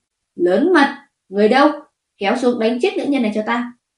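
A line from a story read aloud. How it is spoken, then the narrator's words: Emperor's angry loud shout. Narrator (Vietnamese): hoàng thượng liền giận dữ quát lớn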